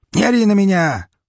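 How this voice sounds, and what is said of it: Shouting. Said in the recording (Russian): “прокричал он в ответ”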